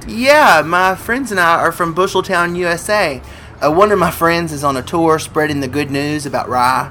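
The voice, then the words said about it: American accent. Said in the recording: “Do I detect an American accent?”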